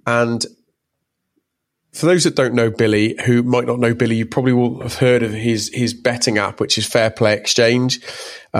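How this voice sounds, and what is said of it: Slight Bristolian English accent. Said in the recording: “my dulcet, slightly Bristolian tones”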